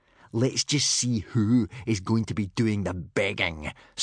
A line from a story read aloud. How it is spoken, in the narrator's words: snarled Snotlout from between gritted teeth